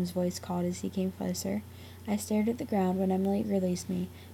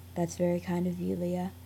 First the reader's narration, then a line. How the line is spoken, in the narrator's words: Sam said